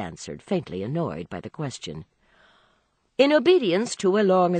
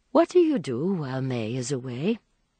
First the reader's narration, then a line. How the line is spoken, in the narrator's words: said after a pause